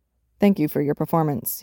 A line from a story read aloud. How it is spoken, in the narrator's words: replied stiffly